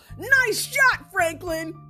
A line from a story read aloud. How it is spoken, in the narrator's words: Peppermint Patty shouts